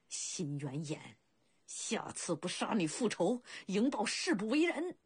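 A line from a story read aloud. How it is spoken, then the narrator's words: Furious vow through gritted teeth. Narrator (Chinese): 气得营豹咬牙切齿地发誓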